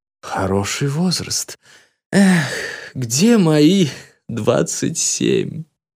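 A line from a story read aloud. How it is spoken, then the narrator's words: Sighing. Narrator (Russian): Вздохнул итальяшка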